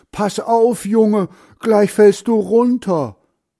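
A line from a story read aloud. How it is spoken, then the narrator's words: Grandfather calling out. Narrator (German): Großvater ruft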